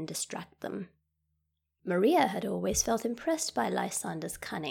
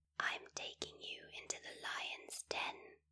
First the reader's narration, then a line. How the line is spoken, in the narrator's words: she whispered into his ear